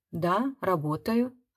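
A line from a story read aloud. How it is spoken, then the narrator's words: Quiet. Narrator (Russian): отвечала я тихо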